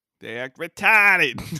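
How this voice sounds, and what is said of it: Put-on Boston accent. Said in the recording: “In your best Boston accent, how do they act? ... He knows that's my go-to of my Boston accent.”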